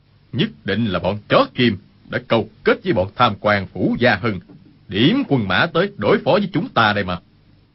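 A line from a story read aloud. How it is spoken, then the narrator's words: Angry. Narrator (Vietnamese): Dương Sự Nhất tức giận nói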